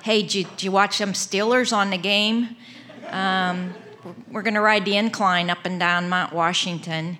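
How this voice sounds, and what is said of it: Put-on Pittsburgh accent. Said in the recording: “She has the best Pittsburgh accent, so I would do her.”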